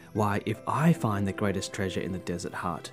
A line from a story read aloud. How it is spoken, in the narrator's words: Piram whispered to himself